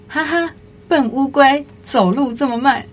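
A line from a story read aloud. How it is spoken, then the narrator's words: Laughing heartily. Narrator (Chinese): 兔子忍不住哈哈大笑说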